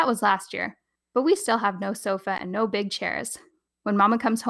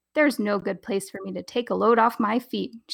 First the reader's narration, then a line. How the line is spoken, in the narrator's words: she says